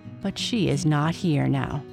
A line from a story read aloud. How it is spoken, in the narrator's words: she said softly